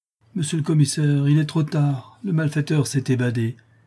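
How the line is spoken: Sad. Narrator (French): dit tristement M

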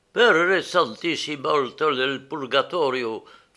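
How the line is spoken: Sudden nasal singsong Neapolitan accent. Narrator (French): fit-il tout à coup d'une voix nasillarde et chantonnante, avec le plus pur accent napolitain

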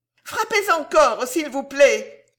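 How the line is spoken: Shouting. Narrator (French): cria Mistress Dowler

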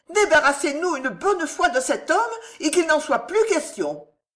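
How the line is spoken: Exclaiming. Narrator (French): s'écria Madame Harel

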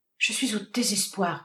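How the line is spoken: Overwhelmed stammering. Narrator (French): balbutia-t-elle, avec accablement

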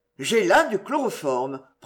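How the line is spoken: Cold. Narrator (French): prononça froidement le médecin

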